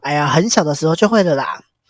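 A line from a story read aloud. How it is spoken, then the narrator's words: Laughing. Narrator (Chinese): 阿和他就笑着说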